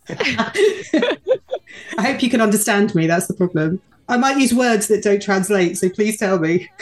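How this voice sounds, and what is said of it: British accent. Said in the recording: “all the way from the U.K. ... Your accent helps too.”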